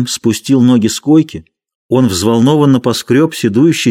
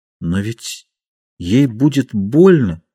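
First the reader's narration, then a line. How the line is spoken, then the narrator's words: Uncertain. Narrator (Russian): сказал он неуверенно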